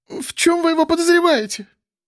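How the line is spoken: Slight squeal. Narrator (Russian): чуть взвизгнула Миль

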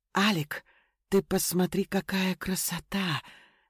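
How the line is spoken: Admiring murmur. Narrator (Russian): восхищенно пробормотала моя жена

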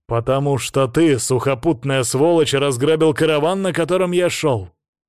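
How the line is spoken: Angry growl. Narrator (Russian): прорычал тот

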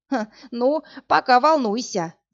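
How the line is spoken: Loud laughing. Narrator (Russian): захохотала Марфа

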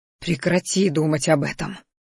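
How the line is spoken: Growled at himself. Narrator (Russian): рыкнул на самого себя

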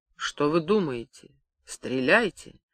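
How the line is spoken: Moaning into ear. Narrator (Russian): стонал мне в ухо Корецкий

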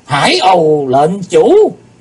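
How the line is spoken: Moved group exclamation. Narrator (Vietnamese): Bất giác chúng động lòng kêu lên

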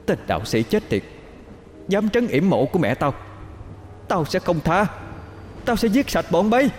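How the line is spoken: Furious piercing scream. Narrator (Vietnamese): Tiếng gào thét sắc nhọn xuyên vào màn nhĩ, giận dữ tới cực điểm

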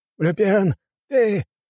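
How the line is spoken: Trembling voice. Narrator (Russian): дрожащим голосом проговорил он

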